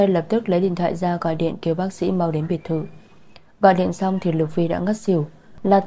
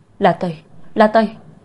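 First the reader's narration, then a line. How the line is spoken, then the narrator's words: Shouting. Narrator (Vietnamese): Lục Vi hét lên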